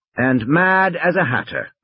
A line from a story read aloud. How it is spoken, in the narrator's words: Malcolm said cheerfully